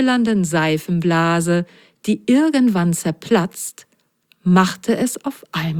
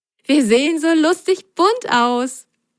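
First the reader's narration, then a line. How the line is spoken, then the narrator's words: Laughing. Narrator (German): lachte Sine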